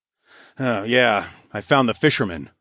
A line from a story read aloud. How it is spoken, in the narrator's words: I grunted